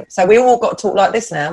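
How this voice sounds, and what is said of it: Put-on Estuary English accent. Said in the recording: “Estuary accent.”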